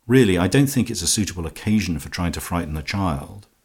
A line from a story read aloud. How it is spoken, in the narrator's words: Twyford said sharply